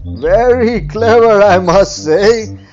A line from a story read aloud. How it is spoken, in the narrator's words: laughed Farmer Balram